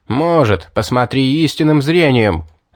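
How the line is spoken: Angry shout. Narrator (Russian): зло крикнул я

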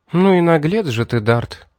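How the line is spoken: Sad sigh. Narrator (Russian): Мэри с грустью вздохнув заметила

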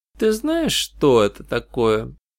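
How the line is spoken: Gentle, affectionate. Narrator (Russian): ласково произнесла она

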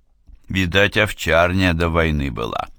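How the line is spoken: Plain. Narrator (Russian): сказал сержант Григорьев

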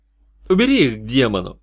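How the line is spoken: Irritated. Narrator (Russian): Раздраженно

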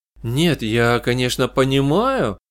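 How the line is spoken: Hesitant. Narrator (Russian): неуверенно начала Теналия

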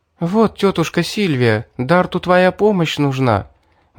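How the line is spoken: Excited. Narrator (Russian): взволнованно сказала Мирра

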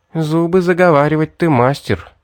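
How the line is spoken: Muffled, hollow voice. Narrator (Russian): глухо проговорила Мэри

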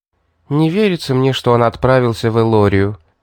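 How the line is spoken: Sigh. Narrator (Russian): не удержавшись, вздохнула она

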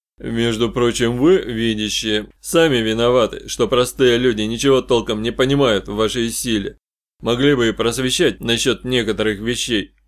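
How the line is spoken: Somewhat embarrassed grumble. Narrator (Russian): несколько сконфуженно пробурчал Капрал

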